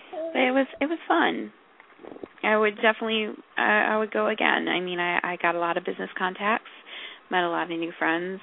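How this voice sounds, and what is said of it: Hoarse, fading voice. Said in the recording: “I don't mean to cough in your ear. I'm starting to lose my voice here.”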